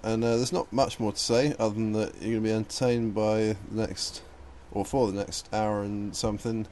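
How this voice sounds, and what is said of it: Slurred, tipsy speech. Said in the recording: “as you can probably hear, I'm slurring my words a little bit, and that's because I'm way in the lead on the beer drinking competition”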